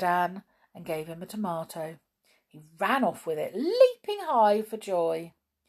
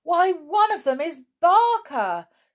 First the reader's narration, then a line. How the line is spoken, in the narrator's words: shouted George in delight